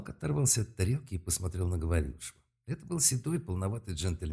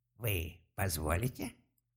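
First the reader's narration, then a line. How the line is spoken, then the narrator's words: Dry cracked voice. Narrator (Russian): незнакомец и сухим натреснутым голосом сказал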